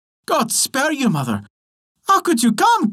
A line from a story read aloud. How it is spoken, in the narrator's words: cried Tom